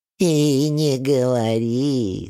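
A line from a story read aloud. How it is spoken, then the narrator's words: Sympathetic whine. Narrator (Russian): сочувственно скулит Гавриловна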